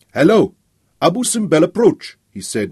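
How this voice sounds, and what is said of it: Gulf States Arabic accent. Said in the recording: “in a Gulf States accent.”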